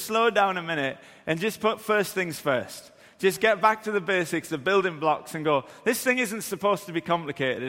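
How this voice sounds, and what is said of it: Geordie (Newcastle) English accent. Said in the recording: “my accent, I'm from Newcastle ... it's the Geordie thing”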